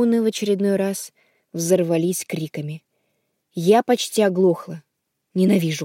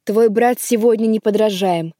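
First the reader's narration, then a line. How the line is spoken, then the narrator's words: Delighted shouting mother. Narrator (Russian): прокричала мама, сияя восторгом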